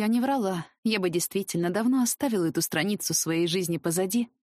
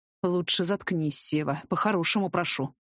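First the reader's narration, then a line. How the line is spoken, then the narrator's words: Growling. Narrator (Russian): рыкнул Артем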